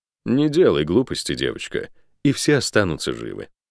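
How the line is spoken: Calm pleasant voice. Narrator (Russian): сказал красивым, спокойным голосом

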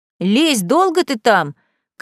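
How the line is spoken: Shouted from a distance. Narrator (Russian): крикнул с дороги Василий

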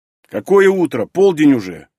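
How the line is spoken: Grumbling. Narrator (Russian): проворчал Танис

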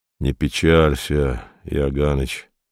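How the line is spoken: Quiet. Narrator (Russian): сказал он тихо

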